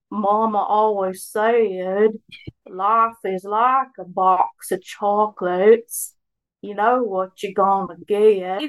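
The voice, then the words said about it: Imitates Forrest Gump's voice. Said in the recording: “let me hear your Forrest Gump impression ... That is 100 times better than me”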